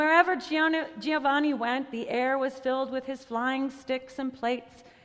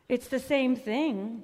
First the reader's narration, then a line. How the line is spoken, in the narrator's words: the brothers said